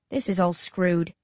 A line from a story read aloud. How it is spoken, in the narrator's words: I mutter